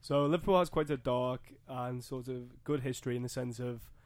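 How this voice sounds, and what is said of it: Liverpool accent. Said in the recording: “Who is from, guess, with his accent, keep speaking, speak. ... I'm from Liverpool.”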